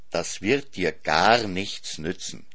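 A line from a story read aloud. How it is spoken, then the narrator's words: Plain, father. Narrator (German): sagte der Vater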